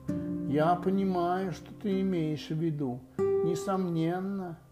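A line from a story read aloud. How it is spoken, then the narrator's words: Owl's wise-sounding voice. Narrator (Russian): сказала сова очень умным голосом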